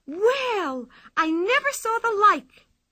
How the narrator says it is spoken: cried

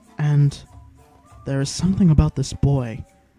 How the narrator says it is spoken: whispered to himself

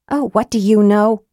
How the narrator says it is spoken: snapped

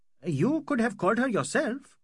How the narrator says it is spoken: cried the magistrate

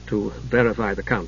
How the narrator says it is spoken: added in a low voice not to be overheard

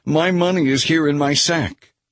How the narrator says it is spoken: he exclaimed to his brothers

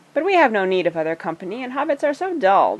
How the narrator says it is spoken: they laughed

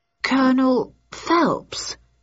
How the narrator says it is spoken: stammered

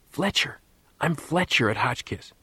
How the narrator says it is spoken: he whispered, hoping that none of the other boys had heard the word

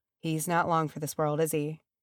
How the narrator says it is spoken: said Ori softly

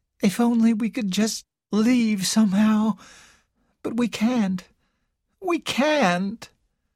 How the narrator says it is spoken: Carol said in a hopeless voice

